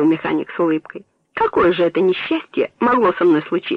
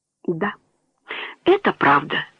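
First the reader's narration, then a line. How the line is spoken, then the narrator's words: Whispered, mechanic. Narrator (Russian): прошептал механик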